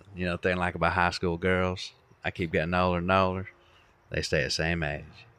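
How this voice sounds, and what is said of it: Matthew McConaughey impression, Texan drawl. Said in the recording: “the closest I could do is Matthew McConaughey, just because it's my natural accent”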